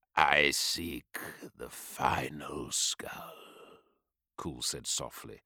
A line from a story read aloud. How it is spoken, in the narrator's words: his voice a purring growl